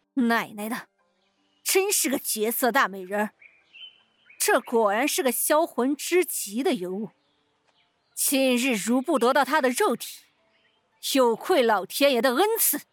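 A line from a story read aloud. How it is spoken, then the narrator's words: Lustful inner praise. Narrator (Chinese): 赵狗子 欲火熊熊 心中不断暗赞道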